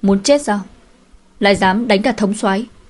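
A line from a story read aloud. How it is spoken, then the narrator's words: Fierce loud shout. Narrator (Vietnamese): người của anh ta lại dữ dằn xông lên quát nạt lớn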